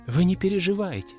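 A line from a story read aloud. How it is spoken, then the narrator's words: Soft, gentle. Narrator (Russian): мягко сказала Валерия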